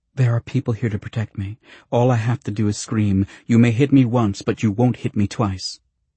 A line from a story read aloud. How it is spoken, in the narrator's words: she added quickly